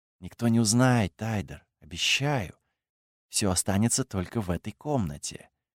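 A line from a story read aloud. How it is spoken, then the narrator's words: Whisper. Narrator (Russian): Кайла прошептала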